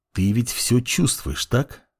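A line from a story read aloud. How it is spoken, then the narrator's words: Young man's quiet voice. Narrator (Russian): тихим голосом произнес парень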